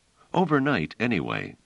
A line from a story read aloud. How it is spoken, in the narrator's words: said Trevise